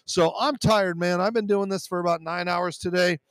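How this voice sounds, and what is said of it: Strained, worn-out voice. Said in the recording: “I'm losing my voice, but I'm getting tired”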